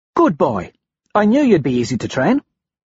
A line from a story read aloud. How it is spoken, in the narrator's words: she says